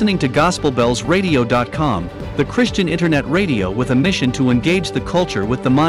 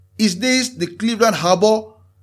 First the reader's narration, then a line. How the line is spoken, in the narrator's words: he called out to the lighthouse keeper